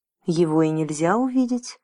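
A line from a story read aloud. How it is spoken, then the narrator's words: Calm. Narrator (Russian): спокойно ответил господин Туртур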